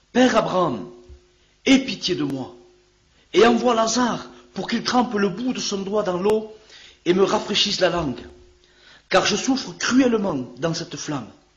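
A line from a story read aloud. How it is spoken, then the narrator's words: Exclaiming. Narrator (French): Il s'écria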